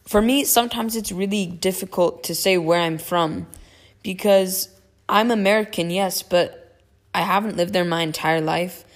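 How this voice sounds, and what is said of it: American accent. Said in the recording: “I do have an American accent”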